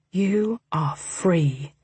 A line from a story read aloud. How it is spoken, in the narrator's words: he said softly